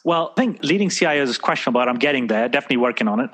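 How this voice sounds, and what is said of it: British accent. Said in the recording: “another Brit also with that accent”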